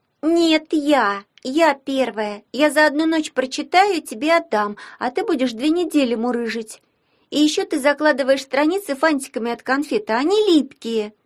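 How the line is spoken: Shouting. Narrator (Russian): закричала Алена

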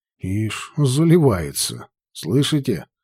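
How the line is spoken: Plain. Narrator (Russian): сказал Уильям Торвотер

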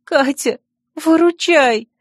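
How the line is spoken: Pleading, sniffling after crying. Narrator (Russian): взмолилась Лили, шмыгая раскрасневшимся от слез носом

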